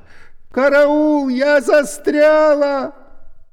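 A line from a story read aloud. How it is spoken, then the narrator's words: Shouting. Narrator (Russian): Она закричала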